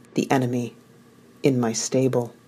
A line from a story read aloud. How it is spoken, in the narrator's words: I whispered